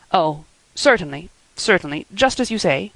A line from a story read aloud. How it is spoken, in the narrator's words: stammered unhappy Matthew